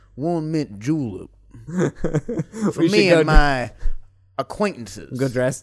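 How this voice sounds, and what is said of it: Put-on Louisiana Southern accent. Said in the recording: “you gotta say it with a Louisiana accent.”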